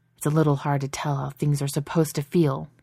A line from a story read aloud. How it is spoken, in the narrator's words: he snaps